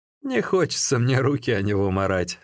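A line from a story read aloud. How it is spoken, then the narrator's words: Said laughing. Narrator (Russian): смеясь сказал Со Чао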